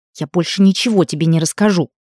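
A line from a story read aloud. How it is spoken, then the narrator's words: Hissing. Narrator (Russian): прошипела она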